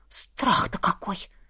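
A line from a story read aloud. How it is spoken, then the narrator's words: Muttered. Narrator (Russian): пробормотала сестра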